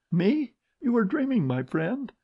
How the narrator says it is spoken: In a trembling voice she said

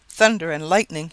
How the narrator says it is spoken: exclaimed

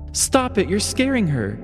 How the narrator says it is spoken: Margaret exclaimed

